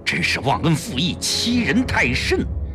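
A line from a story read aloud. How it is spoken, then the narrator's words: Angry. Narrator (Chinese): 老秦恼怒道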